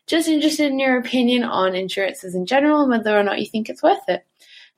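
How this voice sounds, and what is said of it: Beautiful voice with an accent. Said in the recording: “She has such a beautiful voice, beautiful accent.”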